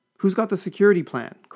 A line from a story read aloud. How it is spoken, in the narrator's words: cried